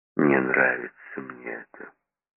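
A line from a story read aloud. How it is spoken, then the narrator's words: Mutter. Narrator (Russian): пробормотал Сомс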